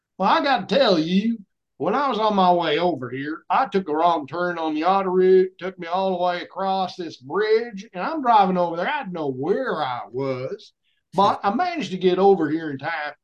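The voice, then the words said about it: Put-on Southern American accent. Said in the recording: “gave them my best Southern accent”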